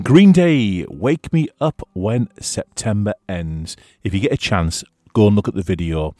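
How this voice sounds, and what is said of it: Strained, fading hoarse voice. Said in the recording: “Oh, I'm losing my voice.”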